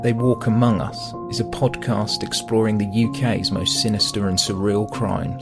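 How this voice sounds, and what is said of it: British accent. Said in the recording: “wonderful British accent”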